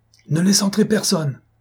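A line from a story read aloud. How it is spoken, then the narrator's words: Exclaimed. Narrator (French): s'écria Cloarec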